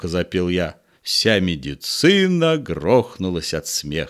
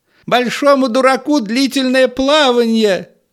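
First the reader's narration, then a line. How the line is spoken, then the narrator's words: Shouted from behind. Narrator (Russian): Крикнула в спину какая-то медицинская клизма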